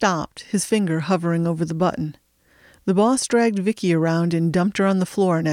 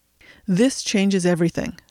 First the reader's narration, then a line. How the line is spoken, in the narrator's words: said the boss